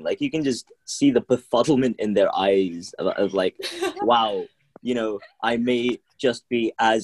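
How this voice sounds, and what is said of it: Urban London accent. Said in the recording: “my accent's pretty urban, it's pretty London”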